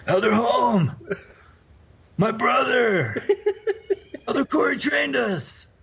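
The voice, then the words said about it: Imitates another person's voice. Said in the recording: “do an impression?”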